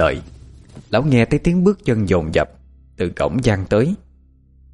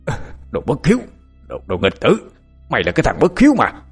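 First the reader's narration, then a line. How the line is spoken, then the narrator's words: Old man's angry shout. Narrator (Vietnamese): Lão Lý giận dữ quát lớn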